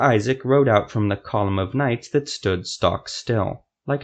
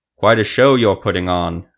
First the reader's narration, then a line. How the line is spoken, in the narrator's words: Liren Jafe shouted